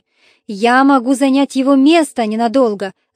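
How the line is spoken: Giant shouting. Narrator (Russian): закричал великан

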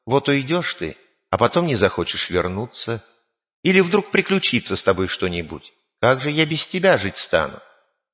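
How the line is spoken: Tender, pleading fairy. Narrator (Russian): фея его не хочет отпускать и говорит ему ласково

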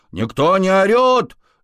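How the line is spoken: Yelling guinea pig. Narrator (Russian): заорала морская свинка

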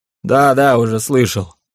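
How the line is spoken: Snort. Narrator (Russian): хмыкнул Кирсан

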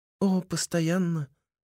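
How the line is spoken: Sad smiling voice. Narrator (Russian): грустно улыбается Мэй

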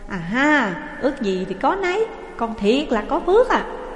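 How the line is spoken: Joyful exclamation. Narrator (Vietnamese): Hai Cường reo lên

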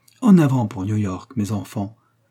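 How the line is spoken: Exclaiming. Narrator (French): s'écria-t-il

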